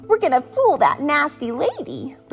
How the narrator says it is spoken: the pups giggled

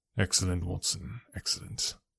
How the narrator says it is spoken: murmured my companion

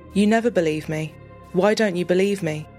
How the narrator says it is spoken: bluntly and calmly replied

